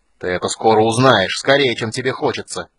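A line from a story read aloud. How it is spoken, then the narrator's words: Growling goblin. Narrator (Russian): зарычал другой гоблин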